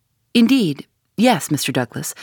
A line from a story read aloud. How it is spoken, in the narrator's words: said Sherlock Holmes